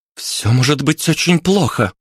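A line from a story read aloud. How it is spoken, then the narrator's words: Exclaimed. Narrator (Russian): воскликнула рыжая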